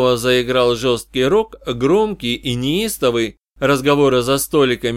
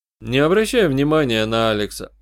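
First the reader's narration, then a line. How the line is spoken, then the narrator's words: Calm advice. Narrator (Russian): спокойно посоветовал я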